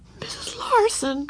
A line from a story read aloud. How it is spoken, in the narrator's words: quavered Ramona